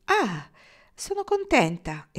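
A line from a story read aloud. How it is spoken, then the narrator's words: Exclaiming. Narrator (Italian): esclamò Kendra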